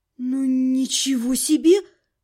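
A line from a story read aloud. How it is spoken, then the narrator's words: Stunned breathless exhale. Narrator (Russian): выдохнула я ошарашенно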